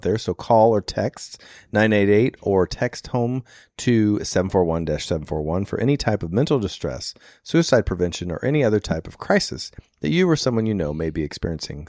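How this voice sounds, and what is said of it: Husky, smoky-sounding voice. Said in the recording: “I apologize if my voice is a little bedroomy. I've been in so many smokehouses.”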